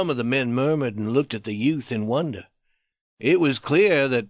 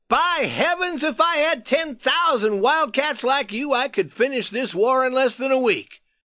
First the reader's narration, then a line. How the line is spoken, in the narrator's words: He called out to the youth